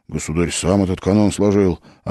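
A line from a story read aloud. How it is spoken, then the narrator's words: Whisper. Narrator (Russian): прошептал Федька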